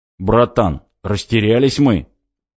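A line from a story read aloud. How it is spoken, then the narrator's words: Deep bass voice. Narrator (Russian): пробасил Тягомотин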